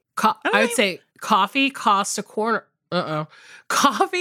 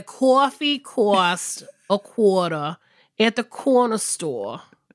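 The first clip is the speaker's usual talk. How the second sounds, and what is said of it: Exaggerated Boston-style Northeastern accent. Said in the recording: “my like weird Boston accent coming back? ... it's not even Southern ... No tinge of Southern at all. You're like, I'm going immediately Northeast.”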